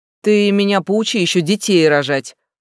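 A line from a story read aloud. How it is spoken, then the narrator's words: Snorting. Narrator (Russian): фыркнул Кецалькоатль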